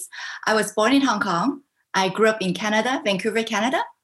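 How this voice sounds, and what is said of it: Mixed international accent. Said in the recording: “you have an interesting accent. And it's because I've actually lived in many countries.”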